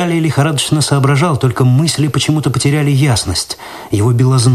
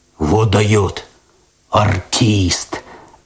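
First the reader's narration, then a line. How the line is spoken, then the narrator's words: Admiring deep bass, cat. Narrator (Russian): восхищенно пробасил кот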